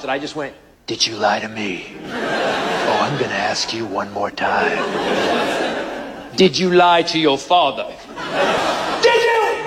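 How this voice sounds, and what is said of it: Deep, menacing stern-father voice. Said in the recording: “you need to develop a second voice. I call it the "you're dead" voice ... My voice is a combination of Barry White, Clint Eastwood, and Darth Vader.”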